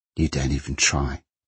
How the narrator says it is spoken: Kay said miserably

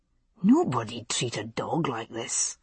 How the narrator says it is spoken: he muttered

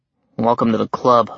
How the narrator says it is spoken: I muttered

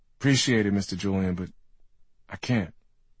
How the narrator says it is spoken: he says

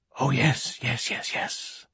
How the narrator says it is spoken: gasped Silenus

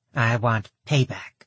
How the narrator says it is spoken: she growled

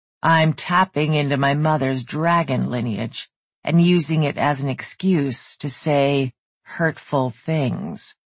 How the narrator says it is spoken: growled out

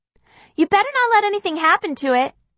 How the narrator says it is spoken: Kitty yells back

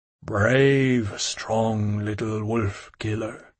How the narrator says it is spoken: it said to me now, in a rounder, deeper voice

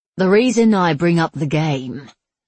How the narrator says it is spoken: Zula said gravely

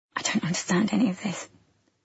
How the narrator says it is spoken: I said in a quiet voice

